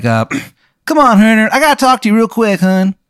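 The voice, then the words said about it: Terrible Maryland accent. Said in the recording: “this guy's terrible Maryland accent”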